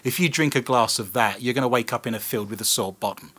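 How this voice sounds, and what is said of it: British accent. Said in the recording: “I'm actually British. This is my accent.”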